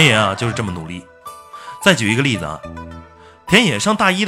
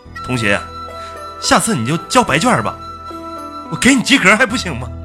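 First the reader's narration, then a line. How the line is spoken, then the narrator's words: Exasperated teacher. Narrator (Chinese): 老师实在是批不下去了，就对他说呀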